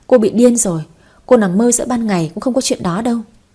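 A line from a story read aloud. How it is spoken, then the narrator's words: Scornful laugh. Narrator (Vietnamese): Ngân Hà bật cười khinh bỉ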